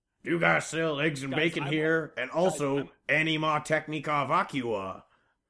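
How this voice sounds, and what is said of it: Angry Oklahoma trucker voice. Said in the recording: “your impersonation of ... an angry trucker at a truck stop in Oklahoma”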